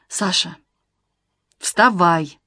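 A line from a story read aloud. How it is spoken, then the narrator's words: Firm repetition. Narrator (Russian): Уже другим твердым голосом повторил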